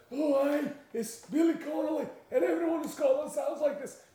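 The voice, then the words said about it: Put-on Scottish accent. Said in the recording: “Scottish accent, what's a Scottish?”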